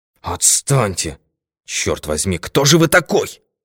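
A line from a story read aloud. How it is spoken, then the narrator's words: Hissed. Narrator (Russian): прошипел Норман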